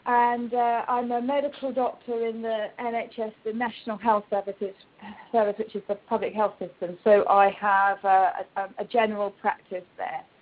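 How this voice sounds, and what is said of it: British accent. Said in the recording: “I'm from the UK, as you can probably hear from my accent”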